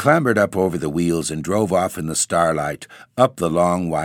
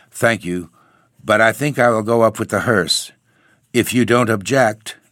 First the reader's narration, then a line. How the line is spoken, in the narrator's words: the young man replied stiffly